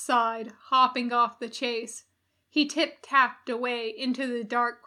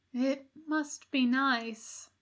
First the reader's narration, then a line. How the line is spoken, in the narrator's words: he said softly